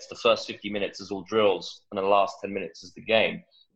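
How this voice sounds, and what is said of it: English accent. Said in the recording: “Growing up in England, obviously, as you can tell with the accent”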